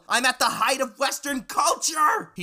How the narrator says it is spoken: He shrieked

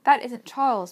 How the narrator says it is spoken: Meg cried

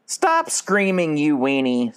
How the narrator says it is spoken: said Cal

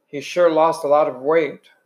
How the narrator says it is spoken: Derry said

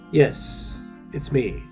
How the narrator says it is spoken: he said softly

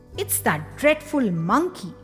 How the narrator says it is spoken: cried Aunt Ruby

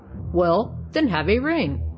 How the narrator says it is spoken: said he, still chuckling

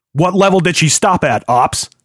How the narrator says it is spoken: Hill barked

